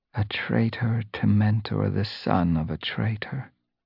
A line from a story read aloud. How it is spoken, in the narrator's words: she rasped